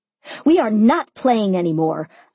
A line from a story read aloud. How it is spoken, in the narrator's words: I tried to yell, but Simon took that moment to place his hand over my mouth